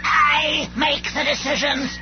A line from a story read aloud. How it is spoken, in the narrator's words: snapped Megatron